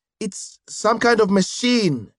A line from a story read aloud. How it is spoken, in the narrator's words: she shouted back